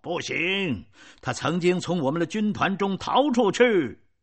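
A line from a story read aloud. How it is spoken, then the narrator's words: Loud shout. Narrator (Chinese): 有人大声的喊道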